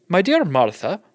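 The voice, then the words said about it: Put-on British accent. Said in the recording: “I'm guessing he had a British accent when he said that.”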